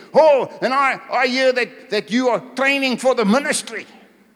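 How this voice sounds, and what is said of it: Imitated German accent. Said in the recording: “His German accent.”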